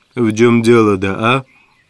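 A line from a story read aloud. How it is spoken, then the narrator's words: Weary tone. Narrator (Russian): проговорил он утомленным тоном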